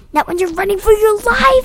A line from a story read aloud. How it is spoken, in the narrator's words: he screamed